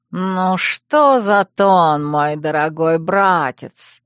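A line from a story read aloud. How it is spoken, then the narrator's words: Purring voice. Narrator (Russian): промурлыкал чей-то новый голос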